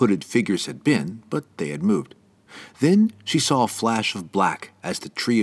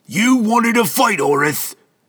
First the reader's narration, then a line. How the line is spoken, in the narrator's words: the dwarf yelled